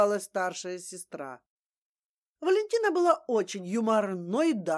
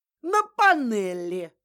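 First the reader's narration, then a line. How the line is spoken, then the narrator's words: Laughing. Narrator (Russian): хохотала Валентина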